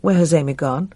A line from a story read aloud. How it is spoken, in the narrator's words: Tom said a little unsteadily